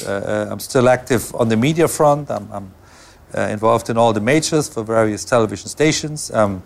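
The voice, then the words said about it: Non-native accented English. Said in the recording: “English is not my first language, so I do all that in my second language. ... I'm happy that you can understand my accents”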